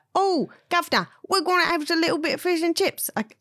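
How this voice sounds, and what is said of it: American imitating an English accent. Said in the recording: “That was me trying to do an American, trying to do an English accent.”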